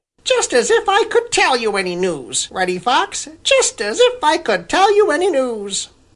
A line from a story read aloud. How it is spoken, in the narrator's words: exclaimed